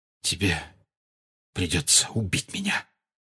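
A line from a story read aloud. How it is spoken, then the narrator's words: Whisper. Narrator (Russian): прошептал Сириус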